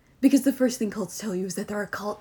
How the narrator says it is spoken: Tilly snapped, somehow making her eye roll evident in her voice

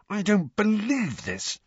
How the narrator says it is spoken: snarled Harry

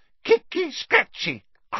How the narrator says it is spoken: cried Peeves happily

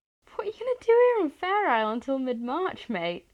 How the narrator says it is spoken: Louis asks with a small incredulous laugh

